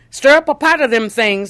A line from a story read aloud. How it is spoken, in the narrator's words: Master Ridley shouted